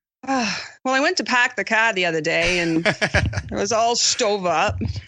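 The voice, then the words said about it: Maine accent. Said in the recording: “I want to hear a good Maine accent. Can you do a really good Maine accent? ... Oh, nice. Very good.”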